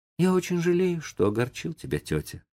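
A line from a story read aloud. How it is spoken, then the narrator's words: Thoughtful, remorseful. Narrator (Russian): сказал Том задумчиво и с раскаянием в голосе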